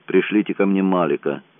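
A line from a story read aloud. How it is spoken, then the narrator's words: Dry. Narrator (Russian): сухо сказал Ковски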